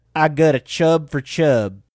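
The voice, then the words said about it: Put-on Southern accent. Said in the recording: “That's not his accent. I mean, like, it's a Southern accent. That's not him.”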